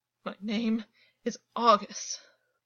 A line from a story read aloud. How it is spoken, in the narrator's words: rasped